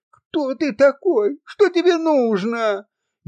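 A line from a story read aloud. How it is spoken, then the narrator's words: Frightened female scream. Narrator (Russian): испуганно закричала Авдотья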